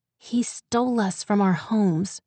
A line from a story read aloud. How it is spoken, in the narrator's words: she said through her teeth, strained